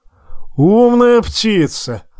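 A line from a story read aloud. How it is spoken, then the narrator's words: Loud laughter. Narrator (Russian): расхохотался Тормунд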